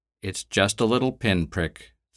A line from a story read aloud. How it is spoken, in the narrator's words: said in a calmer voice